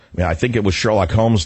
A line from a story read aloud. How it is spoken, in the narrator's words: Doc said